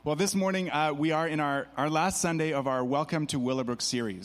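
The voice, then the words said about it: Hoarse voice. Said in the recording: “I just got to yell. So I apologize for my hoarse voice this morning.”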